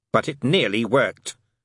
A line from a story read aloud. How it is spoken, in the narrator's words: snapped Crowley, feeling he should stick up for the old firm